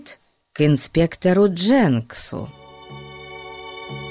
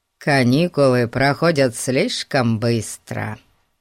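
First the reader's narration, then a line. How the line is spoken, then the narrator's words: Rather gloomy remark. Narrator (Russian): довольно мрачно заметил Пип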